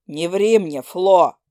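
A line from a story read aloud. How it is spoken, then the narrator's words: Barking. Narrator (Russian): рявкнул он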